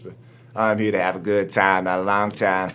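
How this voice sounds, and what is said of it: Imitates another person's voice. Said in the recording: “my Drake impression”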